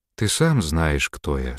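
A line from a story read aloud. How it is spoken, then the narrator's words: Calm demoness's reply. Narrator (Russian): спокойно ответила демоница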